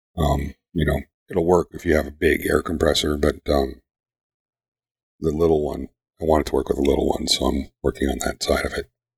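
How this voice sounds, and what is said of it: Hoarse, failing voice. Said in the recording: “I'm losing my voice here, guys.”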